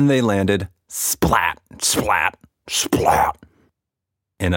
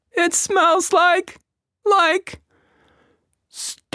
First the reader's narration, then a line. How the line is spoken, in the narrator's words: Quatch cried